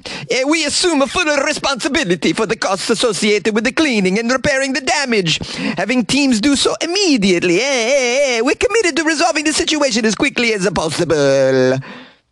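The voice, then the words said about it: Put-on Portuguese accent, somewhat Italian-sounding. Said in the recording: “I don't know what a Portuguese accent sounds like. It's probably a little bit Italian.”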